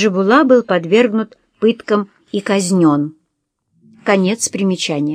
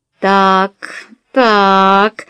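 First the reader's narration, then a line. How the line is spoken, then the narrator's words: Ominous drawl. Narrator (Russian): зловеще протянула Хала Рангмааль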